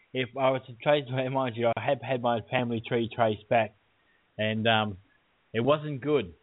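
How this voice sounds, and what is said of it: Australian accent. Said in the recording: “Your accent. Yeah, your accent. ... Australian.”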